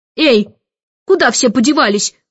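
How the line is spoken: Shouting while running. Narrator (Russian): кричал, перепрыгивая через ступеньки

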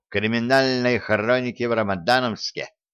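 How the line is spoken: Plain. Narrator (Russian): сказал Гордон

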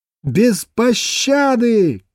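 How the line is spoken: Brisk, almost cheerful amplified shouting. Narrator (Russian): кричала она бойко, почти весело, и звуки ее голоса были всемирно усилены

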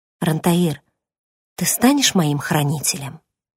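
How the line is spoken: Quiet, uncertain question. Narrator (Russian): тихо и неуверенно спросила

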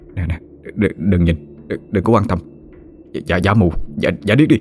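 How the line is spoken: Continuous muttering. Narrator (Vietnamese): Nó liên tục lẩm bẩm trong miệng

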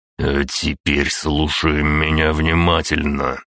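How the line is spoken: Hissing. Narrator (Russian): прошипел директор

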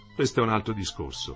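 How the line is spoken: Quiet. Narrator (Italian): disse piano

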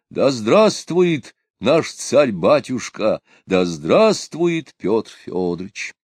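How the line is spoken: Exclaiming. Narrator (Russian): Искрепкин также воскликнул

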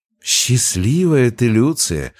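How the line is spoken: Sighing. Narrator (Russian): вздохнула вопрошавшая

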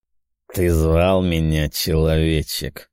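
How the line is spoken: Deep bass voice. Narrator (Russian): пробасил Джармарарел

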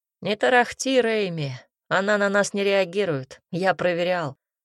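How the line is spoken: Growl. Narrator (Russian): рыкнул Картен

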